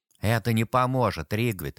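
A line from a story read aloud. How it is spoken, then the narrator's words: Tired. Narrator (Russian): устало сказал ему Том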